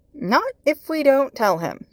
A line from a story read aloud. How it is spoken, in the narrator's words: Merlin piped up